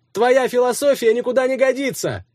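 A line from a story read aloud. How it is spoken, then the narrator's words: Shouted after someone. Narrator (Russian): крикнул ему Никита вдогонку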